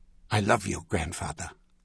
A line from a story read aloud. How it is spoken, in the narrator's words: he said softly